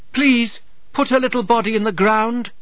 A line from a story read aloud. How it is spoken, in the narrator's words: she called out to him